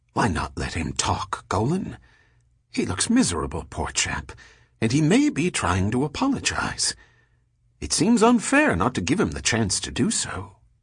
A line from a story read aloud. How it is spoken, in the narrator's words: whispered